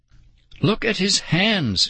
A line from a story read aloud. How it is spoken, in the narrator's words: she cried